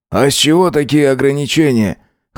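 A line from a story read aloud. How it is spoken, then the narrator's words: Scoffing grunt. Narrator (Russian): хмыкнул Бран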